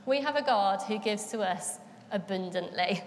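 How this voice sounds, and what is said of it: Leicester accent slips out. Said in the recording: “Excuse the accent there, that came a bit Leicester, didn't it? Came abundantly.”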